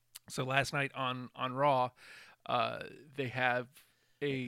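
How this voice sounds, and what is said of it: Usual voice. Nothing is said of it.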